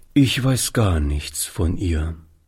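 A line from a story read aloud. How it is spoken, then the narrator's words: Sad answer. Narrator (German): antwortete Oliver, indem er traurig den Kopf schüttelte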